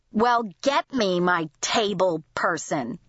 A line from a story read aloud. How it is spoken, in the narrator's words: said in a sneering voice